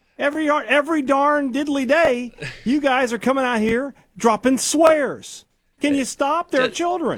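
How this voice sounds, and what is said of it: Sarcastic mock-outraged delivery. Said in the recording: “being sarcastic”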